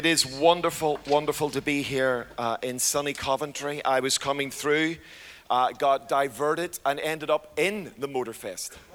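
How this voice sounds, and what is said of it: Hoarse voice. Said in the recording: “As you can probably hear, I'm a little bit hoarse. Can you hear that? The hoarseness. That was because of last night.”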